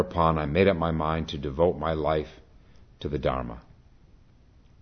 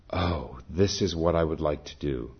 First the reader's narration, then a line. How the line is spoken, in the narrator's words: I was so moved and exalted that I sighed to myself, saying